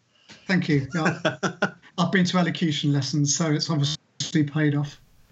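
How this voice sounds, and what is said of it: Posh Southampton South Coast accent. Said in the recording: “Had that kind of lilt... Where's that accent from... I'm from Southampton... you're a posh sounding South Coaster”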